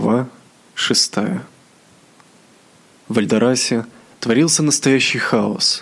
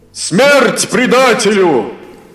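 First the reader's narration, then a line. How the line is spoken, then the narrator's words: Furious crowd shouting. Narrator (Russian): кричали опьяненные гневом простолюдины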